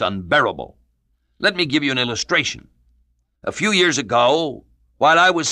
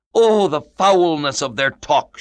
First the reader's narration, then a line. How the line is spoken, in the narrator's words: she exclaimed